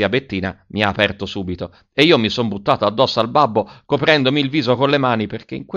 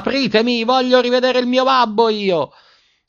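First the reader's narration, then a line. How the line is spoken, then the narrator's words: Screaming at full voice. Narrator (Italian): urlando a squarciagola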